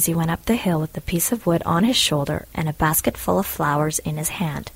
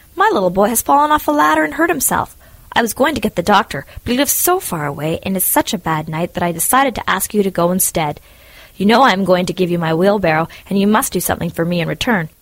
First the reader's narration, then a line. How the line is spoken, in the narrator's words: cried the miller